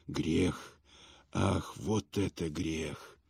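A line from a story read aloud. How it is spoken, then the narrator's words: Whisper. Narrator (Russian): он шептал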